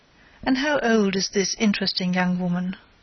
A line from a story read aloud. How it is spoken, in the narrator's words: asked T